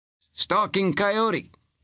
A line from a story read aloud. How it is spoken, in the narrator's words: called out